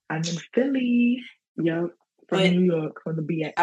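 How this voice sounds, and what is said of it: New York accent with Ghanaian influence. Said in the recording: “that New York accent is unmistakable ... It's like New York mixed with a little Ghanaian ... like African New York accent”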